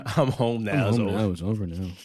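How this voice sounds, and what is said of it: Imitates another person's voice. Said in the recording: “you that sound like that nigga too, though.”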